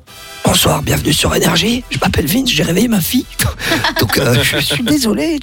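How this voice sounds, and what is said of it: Whispering very quietly. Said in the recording (French): “tu veux que je chuchote dans l'émission? ... je chuchoterai ... je vais tout bas”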